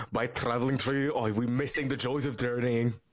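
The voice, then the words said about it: Unconvincing put-on Scottish accent. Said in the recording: “a Scottish guy in the background ... Was he Scottish or Russian? ... I can't do an accent.”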